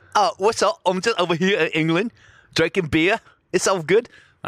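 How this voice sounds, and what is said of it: Put-on British accent. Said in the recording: “Let me talk to this British woman ... I don't know what type of accent it is.”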